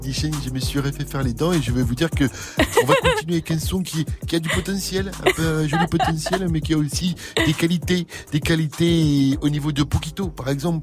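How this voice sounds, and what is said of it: Imitates another person's voice. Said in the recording (French): “mon imitation inimitable ... je vais m'arrêter là dans l'imitation de Didier Deschamps”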